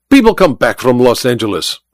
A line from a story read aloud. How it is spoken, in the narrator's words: Olga snapped